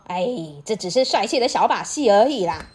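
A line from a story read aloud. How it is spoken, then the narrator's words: Laughing. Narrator (Chinese): 巴斯笑着说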